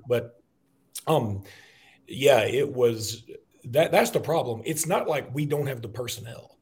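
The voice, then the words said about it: Hoarse, nearly lost voice. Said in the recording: “my voice is kind of gone, so I'm struggling here”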